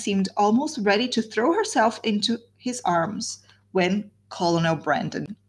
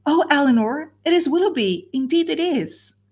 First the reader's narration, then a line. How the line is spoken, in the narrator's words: In the ecstasy of her feelings at that instant, she could not help exclaiming